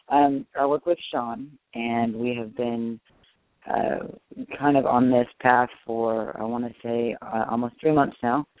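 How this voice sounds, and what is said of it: Hoarse voice. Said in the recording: “I'm very hoarse.”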